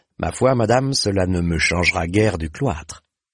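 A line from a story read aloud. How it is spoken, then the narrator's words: Plain. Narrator (French): répondit Blancandin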